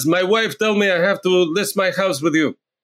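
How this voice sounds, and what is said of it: Poorly done put-on foreign accent. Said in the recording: “That was a terrible accent”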